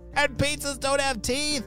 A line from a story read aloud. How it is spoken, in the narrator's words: she shouted